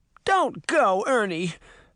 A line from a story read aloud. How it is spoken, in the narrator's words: Bess cried